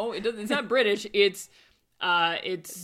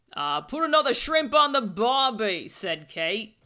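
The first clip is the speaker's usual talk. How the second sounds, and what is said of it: Bad put-on Australian accent. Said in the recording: “Aussie fashion... sounding British... Dick Van Dyke trying to do British and failing. That's how bad it is... it's several degrees removed from any actual accent that exists.”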